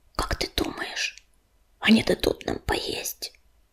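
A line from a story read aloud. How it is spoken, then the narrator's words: Whispered in ear. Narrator (Russian): прошептала Белочка на ухо урагану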